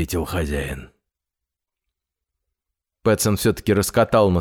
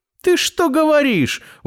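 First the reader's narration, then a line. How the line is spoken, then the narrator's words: Exclaimed. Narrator (Russian): воскликнул Финдус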